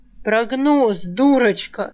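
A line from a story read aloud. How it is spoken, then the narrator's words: Snort. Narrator (Russian): фыркнул Саврянин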